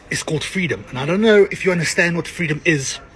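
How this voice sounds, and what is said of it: Australian accent. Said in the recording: “It sounds like it's from like New Zealand or something... it's an Aussie accent... Aussie”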